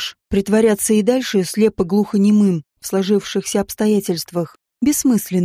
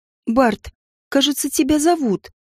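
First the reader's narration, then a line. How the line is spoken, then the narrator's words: Timid. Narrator (Russian): Робко проговорила Оливия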